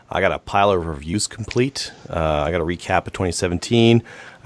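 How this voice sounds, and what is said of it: Slightly weird, sick-sounding voice. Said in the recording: “got a cold. Uh, that's why my voice is a little bit weird.”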